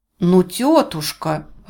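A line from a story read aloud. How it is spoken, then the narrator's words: Exclaimed. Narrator (Russian): воскликнула Джоан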